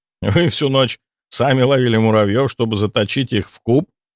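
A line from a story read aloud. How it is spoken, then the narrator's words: Laughing. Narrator (Russian): рассмеялся я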